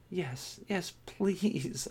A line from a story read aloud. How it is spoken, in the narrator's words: I begged